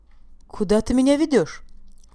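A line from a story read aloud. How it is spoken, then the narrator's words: Exclaimed. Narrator (Russian): воскликнула Виола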